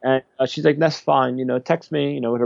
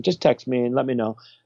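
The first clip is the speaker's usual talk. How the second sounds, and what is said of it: Put-on British accent. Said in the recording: “with her British accent”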